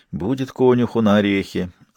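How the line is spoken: Sympathetic sigh. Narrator (Russian): сочувственно вздохнула Дун

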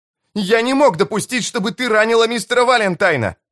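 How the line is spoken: Yelling over noise. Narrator (Russian): заорал он, перекрикивая грохот брюха

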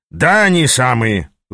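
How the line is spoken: Angry smirking. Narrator (Russian): зло усмехнулся Ас, вспоминая случившееся

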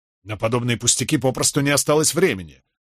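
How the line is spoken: Irritated curt remark. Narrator (Russian): раздраженно бросил Кэт

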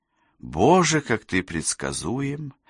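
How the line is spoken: Sighing. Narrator (Russian): вздохнула Кэсси

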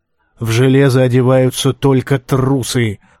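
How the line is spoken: Growling. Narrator (Russian): прорычал он

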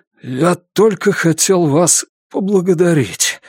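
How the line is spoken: Rasping. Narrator (Russian): хрипит вор

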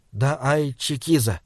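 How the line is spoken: Quiet. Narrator (Russian): тихо сказал Саймон

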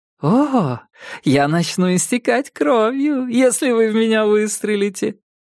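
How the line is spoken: Irritatingly cheerful tone. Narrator (Russian): сказал Диккенсон тем самым раздражающе счастливым тоном

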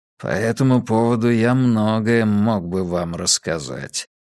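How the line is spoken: Mutter. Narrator (Russian): пробормотал Фермин

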